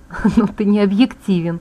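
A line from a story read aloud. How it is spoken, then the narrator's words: Laughing female voice. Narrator (Russian): засмеялась я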